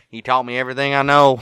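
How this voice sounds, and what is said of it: Put-on Southern US accent. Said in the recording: “I don't know why I'm doing the damn Southern accent now, too”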